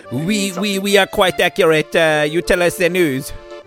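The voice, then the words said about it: Poor put-on French accent. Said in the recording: “You are not a good at the French accent. ... Neither of you are.”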